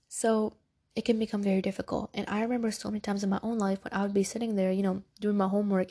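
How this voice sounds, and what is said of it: Congested, stuffy-nosed voice. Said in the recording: “can y'all tell that I'm really congested? Do I sound congested? ... I've been so congested ... I sound so congested ... this congestion is getting to you”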